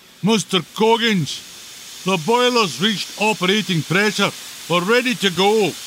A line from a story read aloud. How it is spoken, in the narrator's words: Bleep called out